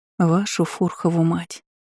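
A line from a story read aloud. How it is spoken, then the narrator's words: Muttering. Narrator (Russian): пробормотала Иза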